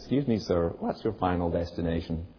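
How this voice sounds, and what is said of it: Put-on accent, flight attendant voice. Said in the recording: “He did it in the accent.”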